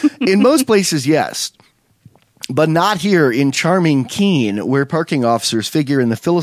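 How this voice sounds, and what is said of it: Usual voice. Nothing is said of it.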